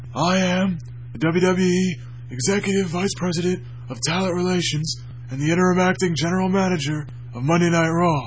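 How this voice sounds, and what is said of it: Raspy John Laurinaitis impression. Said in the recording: “my John Laryngitis impersonation ... I sound like I have emphysema”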